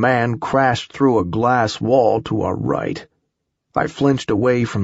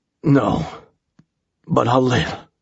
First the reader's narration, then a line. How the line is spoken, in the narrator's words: the man gasped, obviously in pain